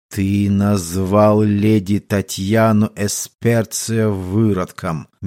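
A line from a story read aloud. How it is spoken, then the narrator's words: Young wolf, slow. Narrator (Russian): медленно произнес волчонок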